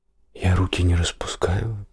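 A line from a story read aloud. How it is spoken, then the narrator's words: Barely audible, defensive. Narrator (Russian): оправдался он еле слышно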